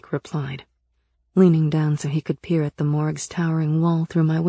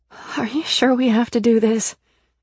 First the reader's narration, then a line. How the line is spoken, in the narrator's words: I asked nervously